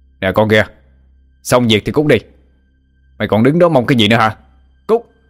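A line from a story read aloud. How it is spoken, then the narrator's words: Shouted. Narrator (Vietnamese): hắn quát lên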